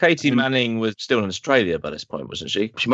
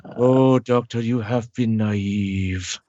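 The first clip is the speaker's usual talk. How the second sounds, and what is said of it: Throaty imitation of another person's voice. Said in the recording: “his voice is just kind of like the back of his throat ... his laugh is a sort of the cackle at the back of the throat ... do an impression of him”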